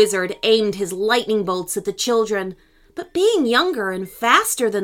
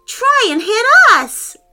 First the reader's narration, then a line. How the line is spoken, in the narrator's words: Olivia yelled